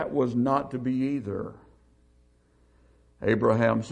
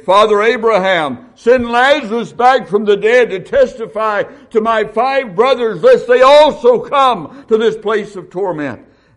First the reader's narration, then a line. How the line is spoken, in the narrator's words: The rich man begged